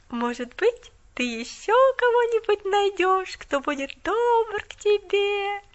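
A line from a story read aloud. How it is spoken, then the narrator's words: Sing-song drawl. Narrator (Russian): Нараспев протянула она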